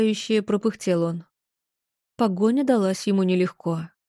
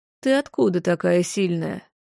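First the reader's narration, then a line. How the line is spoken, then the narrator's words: Soft, soothing. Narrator (Russian): Мягко, как с ребенком или диким зверьком, продолжал говорить он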